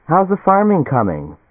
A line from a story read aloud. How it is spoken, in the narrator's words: Helen Morris called cheerfully